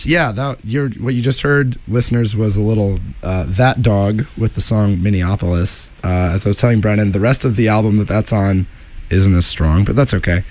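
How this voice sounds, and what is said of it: Grouchy, gravelly voice. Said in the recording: “my voice is a little grouchy, gravelly, more so than usual”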